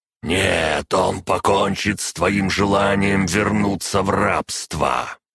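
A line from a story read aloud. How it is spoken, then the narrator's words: Growling. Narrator (Russian): Прорычал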